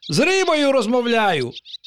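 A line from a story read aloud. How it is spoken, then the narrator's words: Exclaimed. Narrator (Ukrainian): вигукнув пустомелик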